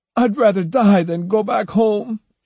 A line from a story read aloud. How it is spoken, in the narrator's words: she wailed